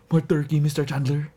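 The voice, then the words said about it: Put-on Filipino accent. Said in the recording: “in like this, like, pseudo, like, Filipino gay guy accent”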